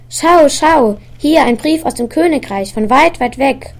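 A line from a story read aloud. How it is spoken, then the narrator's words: Called out excitedly. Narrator (German): rief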